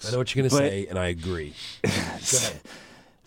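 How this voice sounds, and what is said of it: Hoarse, nearly lost voice. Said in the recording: “My voice is almost gone.”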